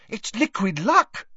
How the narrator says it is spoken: said Hermione excitedly

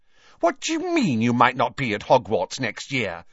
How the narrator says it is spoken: said Pansy indignantly

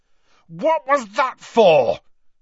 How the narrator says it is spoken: Harry bellowed

